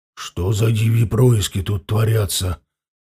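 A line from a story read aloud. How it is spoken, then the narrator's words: Hoarse whisper nearby. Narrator (Russian): Послышался рядом хриплый шепот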